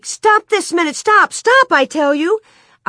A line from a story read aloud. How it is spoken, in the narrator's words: Nellie shrieked